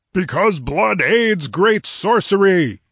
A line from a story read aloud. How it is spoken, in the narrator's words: thundered Zeltotin, in a voice that made the rocks quiver